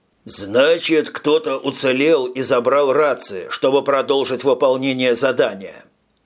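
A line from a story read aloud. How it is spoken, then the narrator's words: Plain. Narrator (Russian): сказал Крейцер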